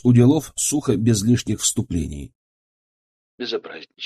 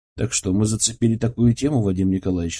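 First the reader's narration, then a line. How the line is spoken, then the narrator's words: Calm question. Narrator (Russian): спросил я спокойно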